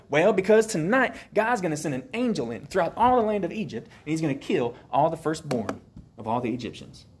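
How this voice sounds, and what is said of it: Put-on Alabama accent. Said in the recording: “got an Alabama accent right there”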